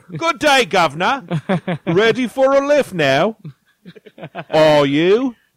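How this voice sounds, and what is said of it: Put-on British accent. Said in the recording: “I would talk with a British accent”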